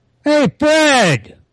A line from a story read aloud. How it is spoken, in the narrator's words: Amelia shouts from the back room